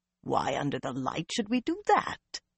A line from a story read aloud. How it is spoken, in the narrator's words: Morvryn rumbled